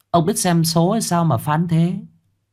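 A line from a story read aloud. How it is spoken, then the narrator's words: Smiling reply. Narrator (Vietnamese): Bà Hoán mỉm cười đáp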